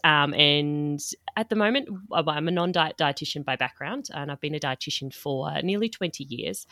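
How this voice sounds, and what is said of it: Australian accent. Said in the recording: “based in Australia, as you can tell by the accent.”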